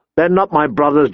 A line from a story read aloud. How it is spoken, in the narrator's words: John snapped